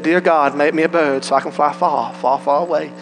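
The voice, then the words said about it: Put-on accent. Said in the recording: “You can get a little accent there with it.”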